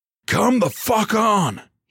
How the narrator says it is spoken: he yelled over his shoulder

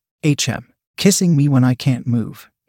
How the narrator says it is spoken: chuckled

